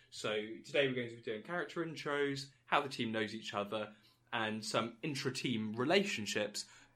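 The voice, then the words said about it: Nasal, congested voice. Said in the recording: “I'm fighting off a cold, so my voice is quite nasally and hurting me a little bit”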